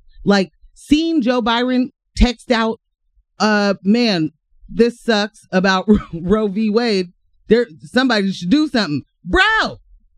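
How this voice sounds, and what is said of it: Yelling loudly. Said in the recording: “Sorry for yelling in y'all ear.”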